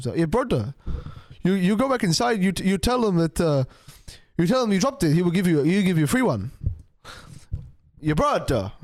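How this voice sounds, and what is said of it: Put-on South African accent. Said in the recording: “he's like a South African guy ... Like that sort of, like that sort of accent”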